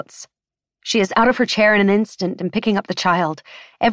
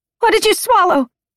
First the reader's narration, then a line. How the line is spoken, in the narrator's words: Keiko shouts at the child